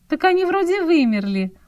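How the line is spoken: Surprised. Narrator (Russian): удивилась Оксана

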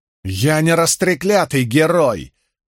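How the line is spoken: Shouting to no one. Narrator (Russian): заорал, никому не обращаясь, Мэтт

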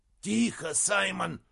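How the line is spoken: Troll's hiss. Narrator (Russian): прошипел тролль

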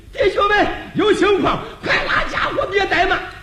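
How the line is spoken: Loud urgent shout. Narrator (Chinese): 忙高声喊了

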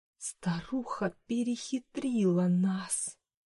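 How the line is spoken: Hissing. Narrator (Russian): прошипела Маргарет Эддингтон

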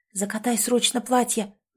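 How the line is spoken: Urgent whisper. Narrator (Russian): зашептала Элизабет

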